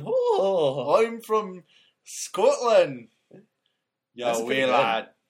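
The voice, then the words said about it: Put-on Scottish accent, fairly convincing. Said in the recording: “I used a Scottish accent ... That's pretty good.”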